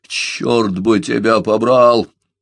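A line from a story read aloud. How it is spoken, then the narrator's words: Booming voice. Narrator (Russian): прогремел он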